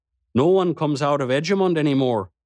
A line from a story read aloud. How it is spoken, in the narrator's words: he said